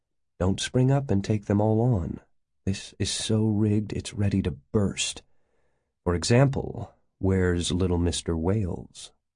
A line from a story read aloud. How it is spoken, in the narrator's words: he continued softly, as if humming a tune